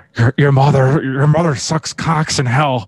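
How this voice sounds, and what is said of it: Poor cartoon character voice impression. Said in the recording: “I did a pretty bad impression. ... I've done way better in the past ... It sounded a lot more like that ... I was trying to do Butthead.”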